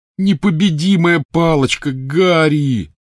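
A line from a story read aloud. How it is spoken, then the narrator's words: Groaning. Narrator (Russian): застонал Рон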